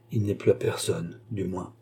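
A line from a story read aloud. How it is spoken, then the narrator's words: Murmured. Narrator (French): murmura André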